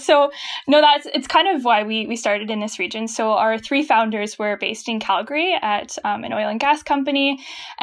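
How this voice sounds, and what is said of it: Distinct Canadian accent. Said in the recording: “you can hear those Canadian O's, those process sounds. You're clearly up north ... I have been told I have a distinct Canadian accent.”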